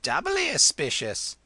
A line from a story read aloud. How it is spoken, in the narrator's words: chirped the old lady